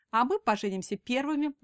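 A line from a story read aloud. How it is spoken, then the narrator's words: Snide, smirking. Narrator (Russian): ехидно ухмыляется Тома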